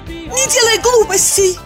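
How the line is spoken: Shout. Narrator (Russian): закричала она

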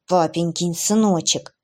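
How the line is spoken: Hateful, through teeth. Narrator (Russian): процедила Аня, с ненавистью

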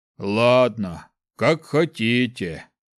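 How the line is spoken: Grumbling. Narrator (Russian): Проворчал он

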